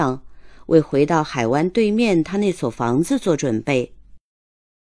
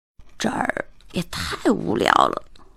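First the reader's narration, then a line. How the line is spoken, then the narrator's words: Low voice. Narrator (Chinese): 海特低声地说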